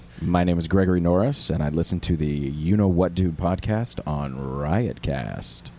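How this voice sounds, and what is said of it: Smooth radio announcer voice. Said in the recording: “listen to his voice though... he's got a great radio voice... He's got a good voice.”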